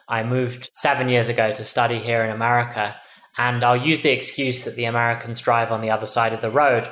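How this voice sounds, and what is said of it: English accent. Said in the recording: “as you can tell from my accent, I'm originally from England.”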